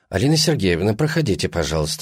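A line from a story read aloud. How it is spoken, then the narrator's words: Impassive. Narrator (Russian): сказала она бесстрастным голосом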